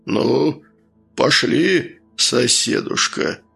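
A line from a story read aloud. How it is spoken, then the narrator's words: Deep bass voice. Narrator (Russian): пробасил он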